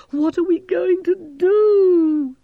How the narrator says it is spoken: Gerda moaned

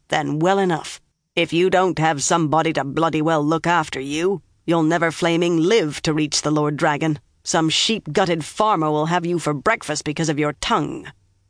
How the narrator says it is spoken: Uno growled

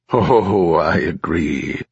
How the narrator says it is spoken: chuckled Erno

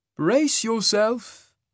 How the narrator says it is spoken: he said, something like anticipation in his musical voice

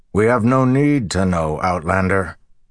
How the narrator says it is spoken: the mayor said harshly

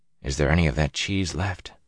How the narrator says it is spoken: Matt whispered

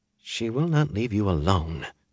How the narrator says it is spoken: she muttered

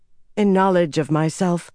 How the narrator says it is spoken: Nynaeve said

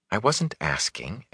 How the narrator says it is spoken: Egwene muttered into her cloak

